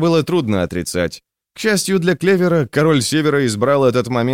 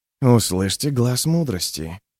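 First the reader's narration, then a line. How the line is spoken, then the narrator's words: Joyless mutter. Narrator (Russian): пробормотал черный Кальдер без особой радости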